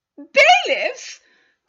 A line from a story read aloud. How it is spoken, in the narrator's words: cried Mrs